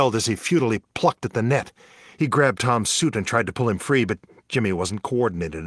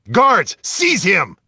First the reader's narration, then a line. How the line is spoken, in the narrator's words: Conundrum bellowed over the intercom